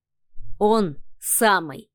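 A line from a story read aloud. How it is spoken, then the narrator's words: Sly, smiling. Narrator (Russian): коварно улыбнулся Адмиралов СВ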